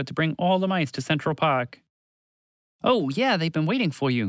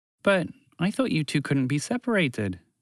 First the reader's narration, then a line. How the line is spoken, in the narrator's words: Montgomery the Mouse said sadly